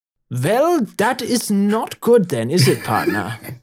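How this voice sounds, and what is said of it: Put-on German accent. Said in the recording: “make him German. Just make him German ... The German doctor ... I have never in my life heard somebody say partner with a German accent.”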